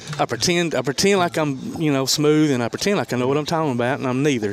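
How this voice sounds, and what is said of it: Southern country accent. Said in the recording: “Does I sound country to you? A little bit. ... Ooh, country.”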